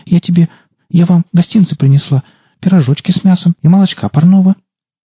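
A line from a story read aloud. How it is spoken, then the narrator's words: Timid girlish babble. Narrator (Russian): Немного осмелев, девушка залепетала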